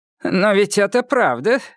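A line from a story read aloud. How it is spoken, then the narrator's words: Father laughing. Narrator (Russian): рассмеялся ее отец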